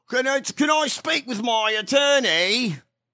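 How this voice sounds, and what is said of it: Put-on British accent. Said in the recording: “A guy with a British accent ... He's British. I meet my barrister?”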